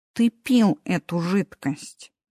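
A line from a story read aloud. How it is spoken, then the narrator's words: Said slowly. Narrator (Russian): медленно сказал Мартин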